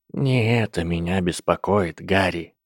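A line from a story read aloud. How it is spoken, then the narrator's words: Quiet. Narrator (Russian): тихо сказал директор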